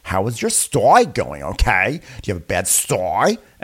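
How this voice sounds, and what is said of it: Impression of Ramona's accent. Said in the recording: “the most Ramona-sounding ailment of all time ... accentuates Ramona's accent more than any other ailment”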